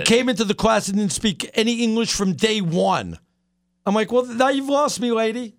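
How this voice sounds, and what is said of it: New York accent. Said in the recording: “I've got a New York accent.”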